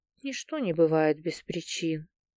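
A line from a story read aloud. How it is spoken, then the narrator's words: Quiet. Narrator (Russian): тихо сказала она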